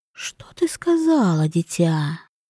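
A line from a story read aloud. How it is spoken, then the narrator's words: Ingratiating whisper. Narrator (Russian): прозвучал вкрадчивый шепот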